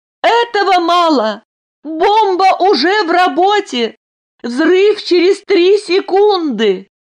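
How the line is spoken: Shouting. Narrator (Russian): Айлин крикнула

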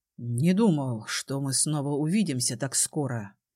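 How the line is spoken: Low, chilling voice. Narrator (Russian): сказал он низким голосом, от которого у меня по спине пробежали мурашки

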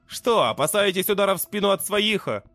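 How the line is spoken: Mocking. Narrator (Russian): Насмешливо бросил я

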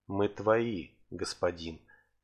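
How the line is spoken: Quiet. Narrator (Russian): тихо произнесла

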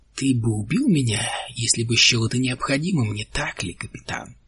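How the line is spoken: Quiet. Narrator (Russian): произнес он тихо

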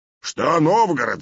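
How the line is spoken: Shouted reply. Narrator (Russian): закричал в ответ Добрыня

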